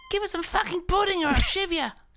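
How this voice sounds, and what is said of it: Starving orphan boy character voice. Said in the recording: “your best impersonation of a poor orphan boy who is starving for some pudding on Christmas Day”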